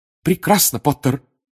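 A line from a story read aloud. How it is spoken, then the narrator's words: Exclaiming. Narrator (Russian): воскликнула профессор МакГонагал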